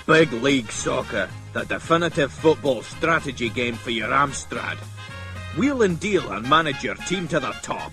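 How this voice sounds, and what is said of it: Poor put-on Scottish accent. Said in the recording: “the worst attempt at a Scottish accent ever”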